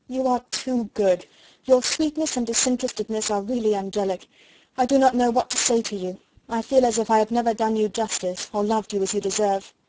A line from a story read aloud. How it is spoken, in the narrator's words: exclaimed Elizabeth